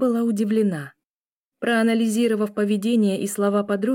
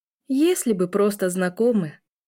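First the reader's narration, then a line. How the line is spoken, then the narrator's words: Sighing. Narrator (Russian): вздохнула Эля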